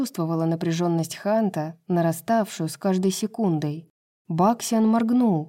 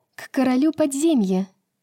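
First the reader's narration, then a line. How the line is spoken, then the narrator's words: Cheerful. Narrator (Russian): весело ответила Брайс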